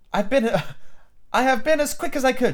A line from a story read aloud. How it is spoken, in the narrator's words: she panted